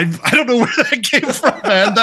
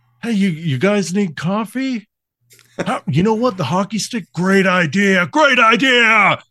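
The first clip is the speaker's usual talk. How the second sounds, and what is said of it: Imitates another person's voice. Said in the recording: “It's actually a pretty good Nick Cage ... am I doing a Nick Cage impression”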